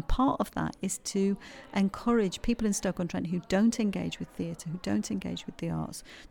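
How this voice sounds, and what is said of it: Yorkshire English accent. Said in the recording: “I'm from Yorkshire, you probably tell from my accent”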